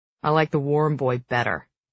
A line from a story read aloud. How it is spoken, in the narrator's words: he grumbles